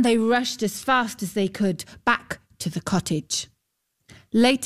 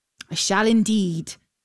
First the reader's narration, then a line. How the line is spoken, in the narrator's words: said the knight